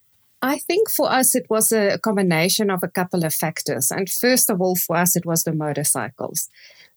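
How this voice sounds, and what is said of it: South African accent. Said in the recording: “you're from South Africa ... for those who recognize the accent, they'll be able to spot it right away”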